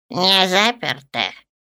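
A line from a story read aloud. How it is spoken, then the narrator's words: Hoarse voice. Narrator (Russian): послышался хриплый голос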